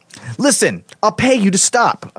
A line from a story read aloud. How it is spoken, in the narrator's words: I yelled